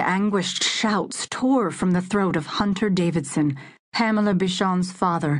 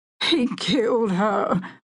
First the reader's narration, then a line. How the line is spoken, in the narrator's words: Hunter Davidson sobbed, his big body going limp